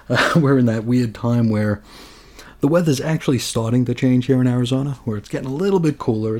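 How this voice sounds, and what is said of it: Raspy, hoarse voice. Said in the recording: “I sound a little raspy or a little hoarse”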